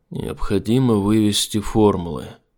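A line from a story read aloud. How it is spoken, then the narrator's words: Calm. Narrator (Russian): спокойно проговорил он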